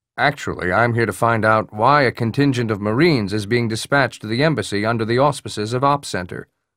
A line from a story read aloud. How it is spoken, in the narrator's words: Hood said